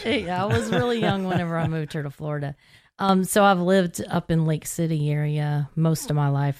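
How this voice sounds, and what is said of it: Tennessee Southern accent. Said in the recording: “I came here very young from Tennessee. So that's the accent. I didn't lose that.”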